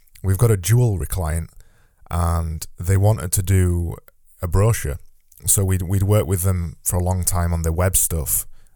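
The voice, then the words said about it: Yorkshire accent. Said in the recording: “a Yorkshire accent”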